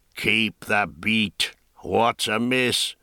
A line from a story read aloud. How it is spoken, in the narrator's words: roared the hoarse, whistling voice from the prow